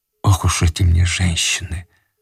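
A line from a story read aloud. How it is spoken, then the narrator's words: Whisper. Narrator (Russian): прошептал Иван Андреевич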